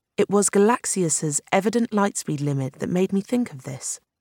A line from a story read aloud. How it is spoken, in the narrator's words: He said evenly